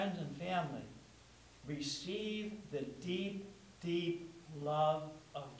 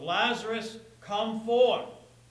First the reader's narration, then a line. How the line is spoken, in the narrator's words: shouting out to the Lazaruses of the world